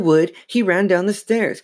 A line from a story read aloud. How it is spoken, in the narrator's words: Chris said frantically